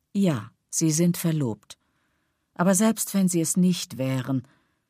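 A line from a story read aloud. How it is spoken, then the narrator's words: Sighing. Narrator (German): er seufzte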